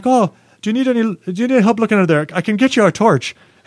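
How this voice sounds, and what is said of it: Bad put-on Irish accent. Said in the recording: “here comes my horrible Irish accent”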